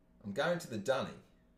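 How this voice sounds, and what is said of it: Poor put-on Australian accent. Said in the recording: “Forgive my terrible Australian accent.”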